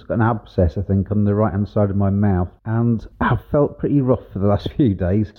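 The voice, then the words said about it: Voice affected, slightly off. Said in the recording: “I don't know if you can hear it in my voice, but my right cheek is rather swollen up”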